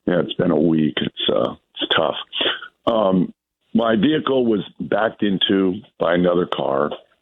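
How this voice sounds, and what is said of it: Hoarse, strained voice. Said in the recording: “I'm going to try to get this out with my terrible laryngitis.”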